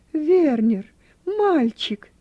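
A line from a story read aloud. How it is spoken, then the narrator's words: Exclaiming. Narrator (Russian): воскликнула она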